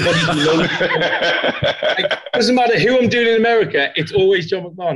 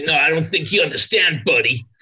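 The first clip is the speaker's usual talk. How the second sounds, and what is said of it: Put-on American accent. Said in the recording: “when I do an American accent, it's always a John McMahon accent.”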